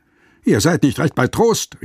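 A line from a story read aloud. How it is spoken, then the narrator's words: Calling out. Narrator (German): rief er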